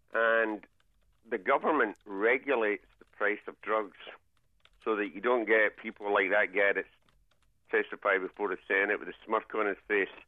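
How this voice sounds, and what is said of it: Scottish accent. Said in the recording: “As you can tell from the accent, I was born slightly north of here, Scotland.”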